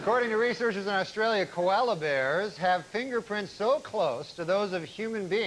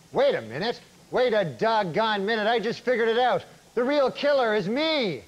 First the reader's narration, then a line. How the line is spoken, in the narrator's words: exclaimed